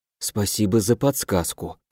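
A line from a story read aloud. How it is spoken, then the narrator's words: Whisper under breath. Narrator (Russian): прошептал себе под нос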